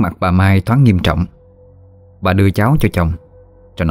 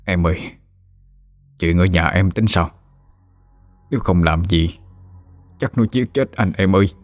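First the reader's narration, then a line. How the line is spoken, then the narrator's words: Soft question. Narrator (Vietnamese): ông khẽ hỏi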